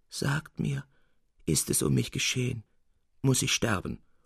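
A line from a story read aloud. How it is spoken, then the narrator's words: Soft groaning. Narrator (German): ächzte er leise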